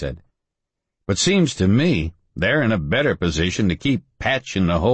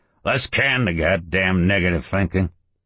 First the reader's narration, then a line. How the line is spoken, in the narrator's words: Ernie said gruffly